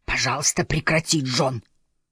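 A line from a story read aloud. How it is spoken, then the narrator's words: Hissed. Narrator (Russian): прошипела она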